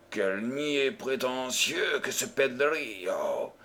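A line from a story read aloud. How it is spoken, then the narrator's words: Grumbling. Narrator (French): grommela Floridor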